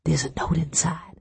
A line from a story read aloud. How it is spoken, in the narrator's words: I whispered